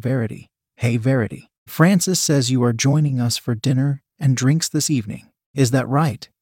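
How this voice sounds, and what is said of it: Deep American accent. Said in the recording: “her name being spoken in a deep U.S. accent.”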